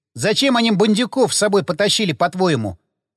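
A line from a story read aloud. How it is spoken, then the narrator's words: Snorting. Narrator (Russian): хмыкнул пиромант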